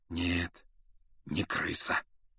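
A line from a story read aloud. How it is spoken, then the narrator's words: Quiet confirmation. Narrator (Russian): негромко подтвердил Люпин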